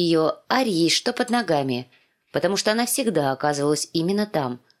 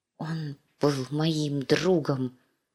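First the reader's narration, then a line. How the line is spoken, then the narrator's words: Quiet whisper. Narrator (Russian): шептала Ария в тарелку, негромко, так, чтобы ее не услышали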